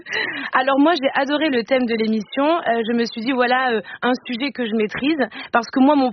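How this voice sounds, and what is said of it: Put-on Marseille accent. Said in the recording (French): “j'essaie de vous imiter, Eva ... Avec l'accent de Marseille ... des accents bancals”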